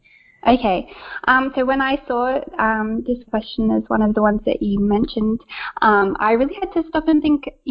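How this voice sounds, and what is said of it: Australian accent. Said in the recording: “every time somebody finds out I'm Australian ... my accent”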